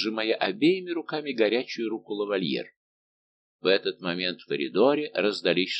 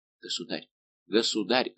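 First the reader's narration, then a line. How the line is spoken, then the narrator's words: Whispering. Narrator (Russian): зашептал Лавальер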